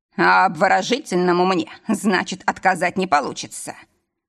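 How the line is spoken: Pleased chuckle. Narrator (Russian): хмыкнул, довольный

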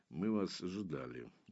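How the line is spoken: Muffled, hollow. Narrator (Russian): глухо проговорил Дар

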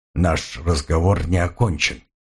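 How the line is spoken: Grumbling. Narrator (Russian): Дементьев отвернулся и пробурчал

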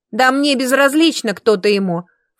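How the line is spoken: Scornful snort. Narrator (Russian): фыркнула девица

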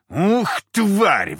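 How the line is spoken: Roaring. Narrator (Russian): взревел я

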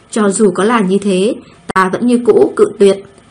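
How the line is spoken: Cold. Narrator (Vietnamese): lạnh lùng nói

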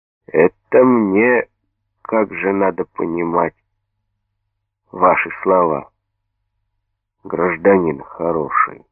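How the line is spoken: Slow hoarse steely question. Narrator (Russian): спросил медленно, в сиплом, чуть гугнивом голосе появились звенящие стальные ноты

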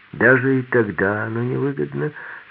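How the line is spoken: Gloomy statement. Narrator (Russian): сказал мрачно

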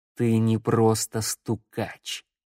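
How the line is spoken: Said slowly. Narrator (Russian): медленно проговорил Думитру

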